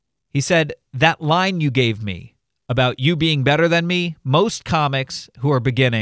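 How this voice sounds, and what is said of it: Usual voice. Nothing is said of it.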